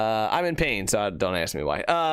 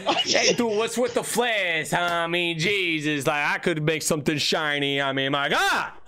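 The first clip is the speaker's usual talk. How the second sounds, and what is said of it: Put-on mafia-style accent. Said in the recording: “I don't know why I had that accent for that ... Mr. Mafia Man”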